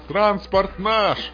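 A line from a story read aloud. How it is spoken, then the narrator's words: Shouted. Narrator (Russian): крикнул комрад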